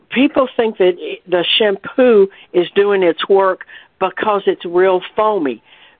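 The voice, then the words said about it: Strained, failing voice. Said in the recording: “I think I'm losing my voice”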